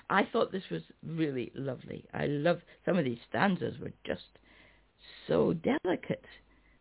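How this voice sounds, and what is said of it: Strained, failing voice. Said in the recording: “I'm losing my voice ... Oh dear, that is bad.”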